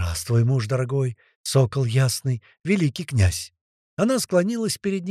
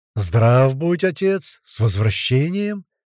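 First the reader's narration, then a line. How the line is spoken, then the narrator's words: Ringing voice. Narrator (Russian): звенящим голосом произнес Глеб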